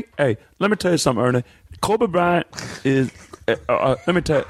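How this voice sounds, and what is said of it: Imitates another person's voice. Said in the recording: “Charles Barkley said it ... your worst impersonation of the day”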